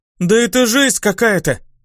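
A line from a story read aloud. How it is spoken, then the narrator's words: Exclamation. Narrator (Russian): воскликнула Тиса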